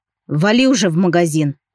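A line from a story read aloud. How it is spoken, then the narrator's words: Growl. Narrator (Russian): прорычал я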